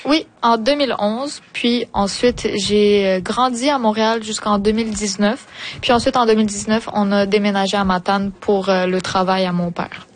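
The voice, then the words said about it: Québécois French accent. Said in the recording (French): “ton accent québécois”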